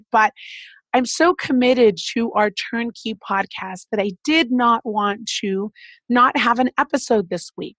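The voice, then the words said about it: Sick, under-the-weather voice. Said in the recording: “As you can hear in my voice, I am a little under the weather. I've been sick for about a week and a half”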